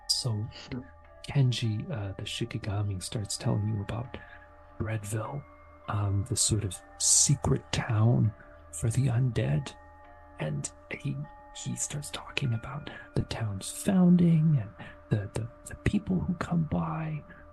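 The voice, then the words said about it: Whispering voice. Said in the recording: “I can't do the really exuberant voice, so I'm just going to keep to my whisper voice... He's exuberant, but with laryngitis.”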